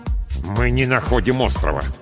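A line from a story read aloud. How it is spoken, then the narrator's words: Through gritted teeth. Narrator (Russian): сквозь зубы ответил пилот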